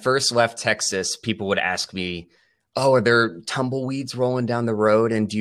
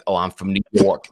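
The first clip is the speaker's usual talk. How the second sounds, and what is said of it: Caricatured New York accent. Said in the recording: “this New York accent”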